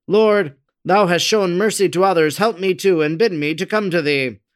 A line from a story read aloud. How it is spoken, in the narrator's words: called out